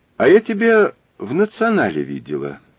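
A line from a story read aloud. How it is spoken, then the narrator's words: Uncertain woman. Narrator (Russian): неуверенно сказала она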